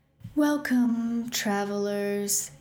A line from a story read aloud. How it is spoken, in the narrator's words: it said sadly